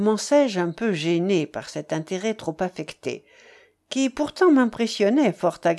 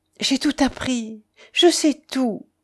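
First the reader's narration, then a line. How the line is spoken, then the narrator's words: Moaning. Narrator (French): gémit-elle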